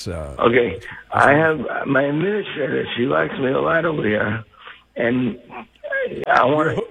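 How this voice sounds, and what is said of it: Mumbling, unclear speech. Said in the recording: “You're mumbling.”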